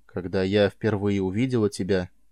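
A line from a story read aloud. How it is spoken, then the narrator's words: Quiet. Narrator (Russian): тихо заговорила она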